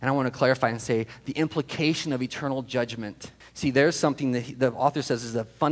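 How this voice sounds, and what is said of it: Usual voice. Nothing is said of it.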